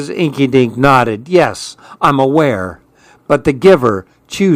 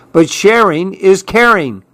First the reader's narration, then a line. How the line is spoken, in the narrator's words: cried Clark